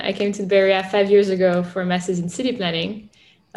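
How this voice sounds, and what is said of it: French accent. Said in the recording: “I'm French. You probably noticed my accent.”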